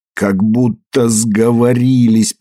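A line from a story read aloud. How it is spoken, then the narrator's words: Groaned. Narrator (Russian): простонал Пейдж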